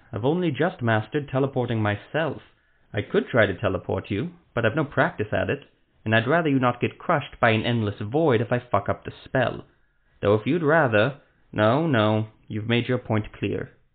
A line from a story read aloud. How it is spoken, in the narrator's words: Ethramel sighed